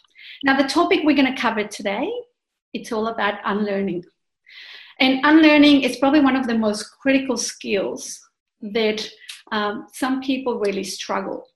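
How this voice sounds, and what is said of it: Spanish-speaking Mexican accent. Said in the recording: “my accent is Spanish speaking, so I was born in Mexico City”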